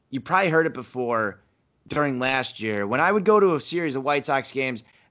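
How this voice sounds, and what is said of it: Rough, strained voice. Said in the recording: “My voice is terrible right now because I've been screaming at the TV for two fucking weeks.”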